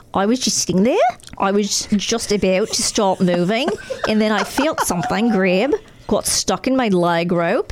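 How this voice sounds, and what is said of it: Put-on Australian accent. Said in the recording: “Do you want me to read this in an Australian accent?”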